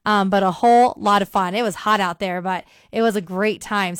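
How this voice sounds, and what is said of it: Slightly messed-up, strained voice. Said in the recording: “my voice is a little messed up, because it's really dusty out there. I'm carrying like 5 pounds of dust in my lungs and, you know, singing along to every word, late nights, early mornings”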